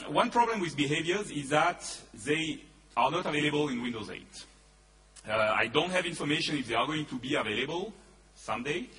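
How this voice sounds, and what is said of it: Voice with a slight cold. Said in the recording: “I have a little bit of a cold, so I'm going to cough a little bit”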